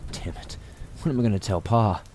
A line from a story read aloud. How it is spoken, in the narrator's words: muttered